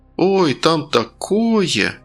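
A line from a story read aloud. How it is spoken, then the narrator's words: Drawn-out, wide-eyed wonder. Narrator (Russian): протянула Зоя, широко раскрыв глаза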